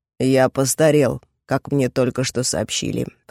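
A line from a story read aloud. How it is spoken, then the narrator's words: Awkward grumble. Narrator (Russian): проворчал в ответ, не зная, что еще сказать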